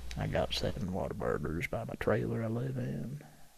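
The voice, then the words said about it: Matthew McConaughey impression. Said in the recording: “I'm trying to do Matthew McConaughey. I know it's not a popular impersonation.”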